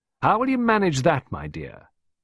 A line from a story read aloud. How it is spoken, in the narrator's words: Costello sneered